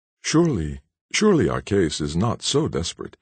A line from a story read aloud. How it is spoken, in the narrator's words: exclaimed the youth